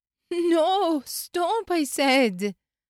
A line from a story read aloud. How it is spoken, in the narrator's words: Jennifer Martin screamed